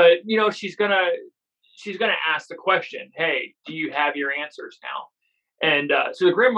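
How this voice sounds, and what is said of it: Usual voice. Nothing is said of it.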